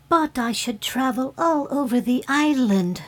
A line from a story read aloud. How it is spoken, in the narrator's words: said the fairy brightly